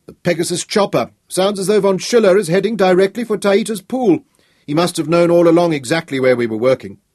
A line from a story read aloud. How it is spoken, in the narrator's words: said Nicholas bitterly